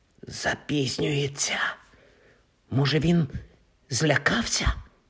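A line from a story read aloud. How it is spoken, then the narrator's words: Whisper. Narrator (Ukrainian): прошепотів Рон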